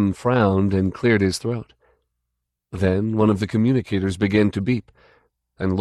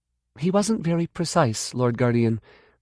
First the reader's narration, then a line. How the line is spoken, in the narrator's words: Kaphira Kay replied uneasily, for the fifth time